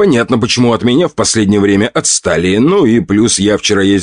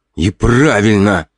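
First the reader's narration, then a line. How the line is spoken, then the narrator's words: Snorting. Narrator (Russian): хмыкнул рыжий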